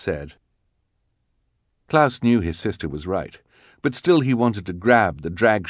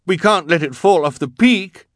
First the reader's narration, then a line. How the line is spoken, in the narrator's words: Klaus cried